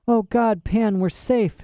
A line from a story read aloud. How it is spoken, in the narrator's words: sobbed